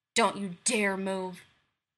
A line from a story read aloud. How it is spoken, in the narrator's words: Nero growls darkly